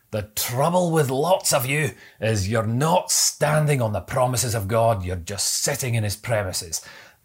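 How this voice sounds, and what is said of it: Put-on Scottish accent. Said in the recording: “I hope that Scottish accent was okay, by the way.”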